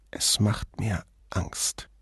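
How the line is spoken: Whisper through clenched teeth. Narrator (German): biss die Zähne zusammen und flüsterte

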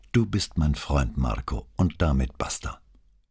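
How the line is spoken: Restrained calm. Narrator (German): Brunetti bezwang sich nur mit Mühe, aber er blieb ruhig und sagte bloß

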